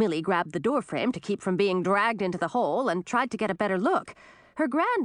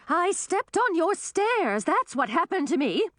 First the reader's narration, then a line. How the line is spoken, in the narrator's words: shouted back, sounding cross